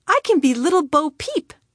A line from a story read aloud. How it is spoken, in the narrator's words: exclaimed